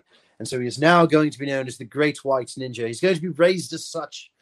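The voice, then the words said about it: Put-on English accent. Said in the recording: “I don't know why I'm talking in an English accent.”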